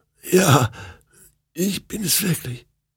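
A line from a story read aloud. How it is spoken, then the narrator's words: Hoarse croak. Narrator (German): Dann krächzte sie heiser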